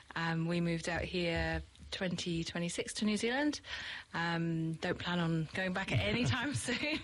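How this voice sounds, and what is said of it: British accent, not a Kiwi one. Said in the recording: “clearly my accent is not a Kiwi accent, so I'm from the UK”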